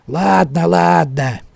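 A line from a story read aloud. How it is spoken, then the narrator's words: Grumbling. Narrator (Russian): проворчал тот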